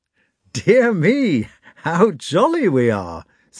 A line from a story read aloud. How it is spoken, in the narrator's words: said Rostov, laughing